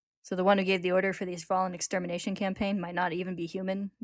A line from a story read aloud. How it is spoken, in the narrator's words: Knox asks